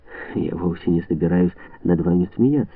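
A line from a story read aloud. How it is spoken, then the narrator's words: Soft, gentle. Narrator (Russian): мягко произнесла она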